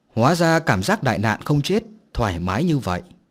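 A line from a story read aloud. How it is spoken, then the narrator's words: Deep breath, smiling. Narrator (Vietnamese): Huyền Trang hít sâu vào một ngụm không khí, mỉm cười nói tiếp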